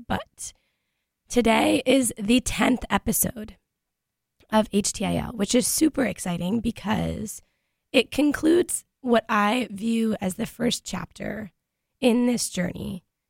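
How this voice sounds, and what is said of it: Hoarse, strained voice. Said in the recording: “yesterday I did lose my voice, so today's episode might be a little bit difficult to understand, given the nature of my current vocal cords”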